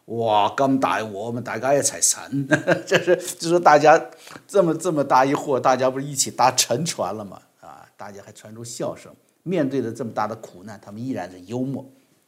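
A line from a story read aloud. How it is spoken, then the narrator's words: Joking. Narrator (Chinese): 陈浩开玩笑说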